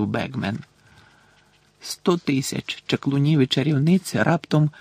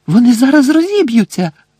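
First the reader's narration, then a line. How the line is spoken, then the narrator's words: Shrieking. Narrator (Ukrainian): заверещала Герміона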